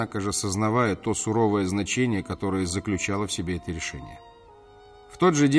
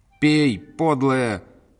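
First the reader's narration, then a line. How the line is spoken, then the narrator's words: Shouting at someone. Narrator (Russian): кричала на нее Любенька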